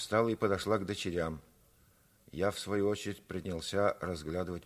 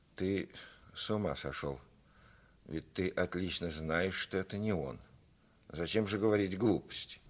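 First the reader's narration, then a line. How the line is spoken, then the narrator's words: Frightened mother mumbling. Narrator (Russian): Мать в испуге пробормотала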